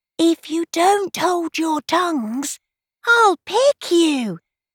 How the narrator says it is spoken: she whispered

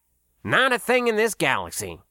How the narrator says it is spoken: Pitt replied sharply

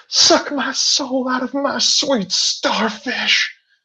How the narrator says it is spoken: She screams

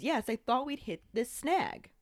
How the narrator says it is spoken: Dumbledore, very much the way that it was done in the movie as well, just very calmly says

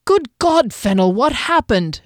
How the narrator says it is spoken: exclaimed Derry

